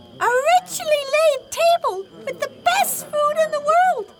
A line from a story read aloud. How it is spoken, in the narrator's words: the donkey exclaimed